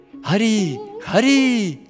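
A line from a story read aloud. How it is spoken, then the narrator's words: Joyful group exclamation. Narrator (Russian): Все радостно воскликнули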